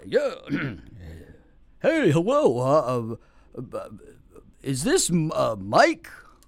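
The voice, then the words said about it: Silly put-on prank-call voice. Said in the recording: “stupid voice”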